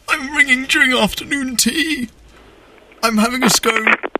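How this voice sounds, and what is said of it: Put-on posh English accent. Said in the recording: “you have to go proper English, like the Hugh Grant accent. You have to really go posh on it ... like old posh English ... Remember, Hugh Grant.”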